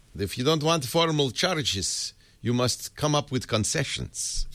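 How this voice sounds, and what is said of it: Nondescript European accent. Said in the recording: “That's a in nondescript European accent.”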